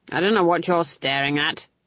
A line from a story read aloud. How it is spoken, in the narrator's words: she growled